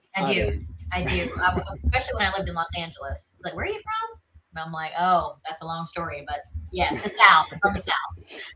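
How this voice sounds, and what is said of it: Southern American accent. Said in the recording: “born and bred South Carolina ... It just comes out of you ... it never goes away ... Southern accent and never really losing it ... in my everyday day to day, it's there”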